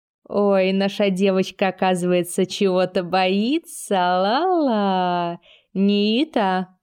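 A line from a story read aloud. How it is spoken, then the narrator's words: Menacing drawl. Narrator (Russian): угрожающе протянула я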